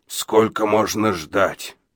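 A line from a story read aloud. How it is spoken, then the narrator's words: Hoarse question. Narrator (Russian): хрипло спросил Абадия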